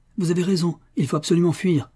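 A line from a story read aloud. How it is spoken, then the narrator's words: Old man exclaiming. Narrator (French): fut le premier à s'écrier le vieux Paddy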